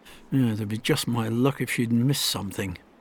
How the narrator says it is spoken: muttered to himself

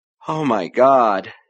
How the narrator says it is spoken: she said, beginning to laugh weakly

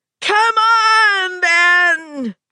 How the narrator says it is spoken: she screamed at him

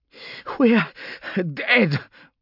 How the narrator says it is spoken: Vaughn was panting over the link

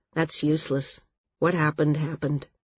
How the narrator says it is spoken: Val said flatly

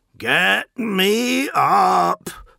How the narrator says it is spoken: roared Barossus

